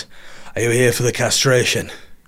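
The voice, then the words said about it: Put-on accent imitating another person. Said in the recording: “I don't think he spoke in this accent, but this is how it sounded to me.”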